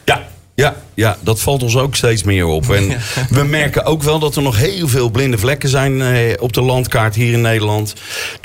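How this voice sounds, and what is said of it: Rotterdam Dutch accent. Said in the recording (Dutch): “dat Rotterdamse accent”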